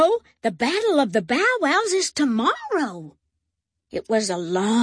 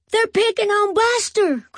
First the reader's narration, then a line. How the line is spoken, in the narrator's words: cried Binky